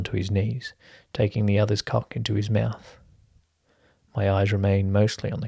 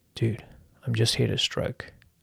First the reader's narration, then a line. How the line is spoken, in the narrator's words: says softly